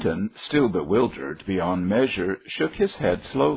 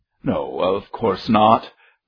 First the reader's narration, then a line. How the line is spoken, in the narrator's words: laughed Gilbert, who was jovial and good-natured